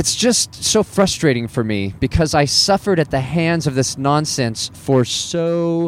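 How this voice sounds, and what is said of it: Usual voice. Nothing is said of it.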